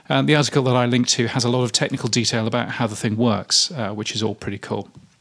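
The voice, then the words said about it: Aloof British accent. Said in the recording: “this aloof British accent”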